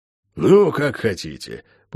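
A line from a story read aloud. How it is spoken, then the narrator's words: Sigh after pause. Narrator (Russian): после недолгого молчания вздохнул он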